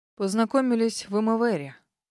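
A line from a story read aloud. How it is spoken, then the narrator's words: Hollow, muffled voice. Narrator (Russian): глухим голосом ответил мсье Дэвид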